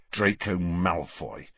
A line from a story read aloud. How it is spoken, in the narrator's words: said Harry bitterly